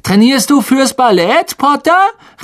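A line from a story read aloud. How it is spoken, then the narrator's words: Mocking call. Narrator (German): rief Malfoy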